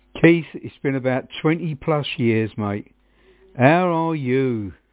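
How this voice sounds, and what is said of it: Suffolk English accent. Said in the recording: “that's a man from Suffolk. That's definitely a man with the accent”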